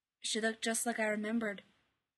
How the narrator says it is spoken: he said thickly

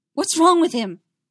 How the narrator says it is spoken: Padme demanded frantically

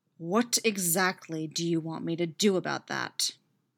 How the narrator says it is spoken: Derek growls back at him waspishly

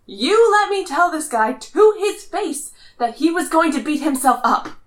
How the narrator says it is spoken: Clint yells

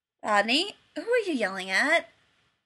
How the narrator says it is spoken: John's voice floated out from the hallway, still sounding a bit croaky

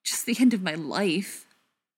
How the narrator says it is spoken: Tom said bitterly

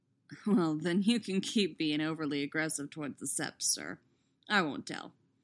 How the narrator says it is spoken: he says wryly

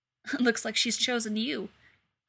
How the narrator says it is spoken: Elsa laughs

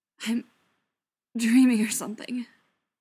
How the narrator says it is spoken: Tom stuttered

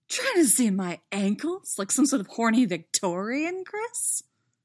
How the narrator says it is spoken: She laughs

